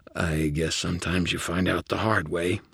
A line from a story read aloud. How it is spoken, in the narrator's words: I slurred